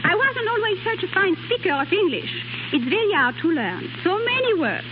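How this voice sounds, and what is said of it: French-accented English. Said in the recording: “Miss Pons was born in southern France ... I've only a little accent.”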